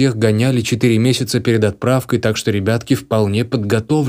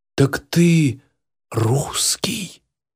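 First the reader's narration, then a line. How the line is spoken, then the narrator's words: Quiet, discreet. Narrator (Russian): Сержант говорил тихо, стараясь не привлекать внимания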